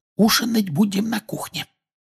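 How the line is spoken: Whisper. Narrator (Russian): прошептала миссис Уизли

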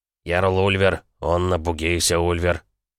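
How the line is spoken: Young lad's deep bass. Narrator (Russian): пробасил паренек

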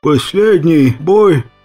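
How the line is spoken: Barely audible wheeze. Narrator (Russian): прохрипел я едва слышно

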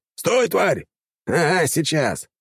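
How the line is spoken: Barking. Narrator (Russian): рявкнул он в ответ орданцу

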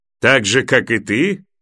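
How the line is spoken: Mocking question. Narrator (Russian): насмешливо спросил сир Алисер

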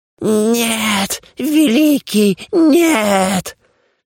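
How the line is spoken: Shrill squeal. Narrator (Russian): Взвизгнул дух

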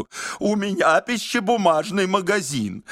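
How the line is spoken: Repeated wailing. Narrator (Russian): на все вопросы он вопил одну и ту же стереотипную фразу

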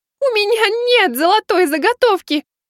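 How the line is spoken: Despairing wail. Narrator (Russian): взвыла она в отчаянии

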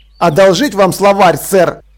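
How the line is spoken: Snapping, flushed with anger. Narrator (Russian): огрызнулся Деслов багровея

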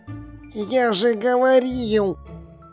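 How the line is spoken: Hiss. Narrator (Russian): прошипел он

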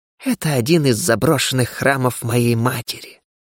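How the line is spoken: Unpleasant hissing. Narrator (Russian): с неприятным шипением ответила Кера

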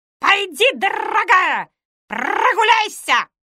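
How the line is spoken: Shouted, parrot. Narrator (Russian): крикнул попка

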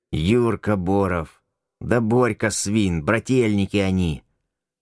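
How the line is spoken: Innkeeper speaking through teeth. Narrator (Russian): Сквозь зубы процедил трактирщик

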